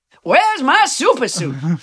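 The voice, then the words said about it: Bad Samuel L. Jackson impression. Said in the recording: “my very bad Samuel Jackson impression”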